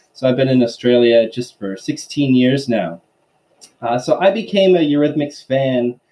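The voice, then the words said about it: American accent. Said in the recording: “as the accent suggests, I actually was born in the United States”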